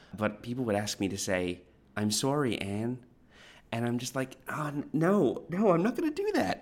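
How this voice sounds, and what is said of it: Mild Canadian accent. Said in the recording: “as you can hear, I have a Canadian accent, which is less harsh than it was when I first came to Australia 14 years ago”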